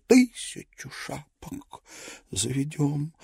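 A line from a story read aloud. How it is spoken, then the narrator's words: Delighted whisper. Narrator (Russian): прошептал в восторге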